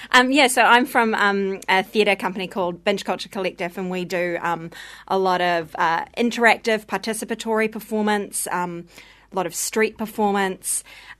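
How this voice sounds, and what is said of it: Strong New Zealand accent. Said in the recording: “I've got a pretty strong Kiwi accent, probably.”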